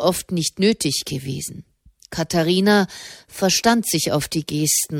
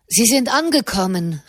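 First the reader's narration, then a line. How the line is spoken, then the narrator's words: Calling out. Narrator (German): rief er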